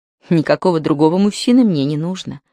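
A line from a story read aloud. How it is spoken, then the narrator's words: Plain. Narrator (Russian): ответила Равена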